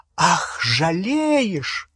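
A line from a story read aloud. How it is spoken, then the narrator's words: Shrill laughter. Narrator (Russian): Гермиона пронзительно расхохоталась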